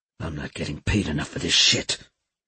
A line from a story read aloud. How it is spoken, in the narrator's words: he muttered